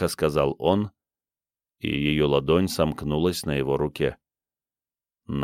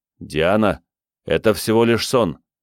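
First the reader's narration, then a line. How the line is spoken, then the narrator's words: Loud. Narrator (Russian): громко сказал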